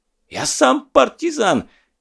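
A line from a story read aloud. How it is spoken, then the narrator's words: Sudden enraged yell. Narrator (Russian): Неожиданно заорал на весь салон взбесившийся Бек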